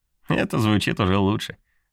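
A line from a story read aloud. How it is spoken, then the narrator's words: Laughing. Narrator (Russian): рассмеялась Милли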